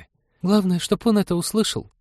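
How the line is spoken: Sighing. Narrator (Russian): вздохнула Полина

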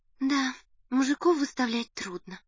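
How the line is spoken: Sighing. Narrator (Russian): вздохнула Надя

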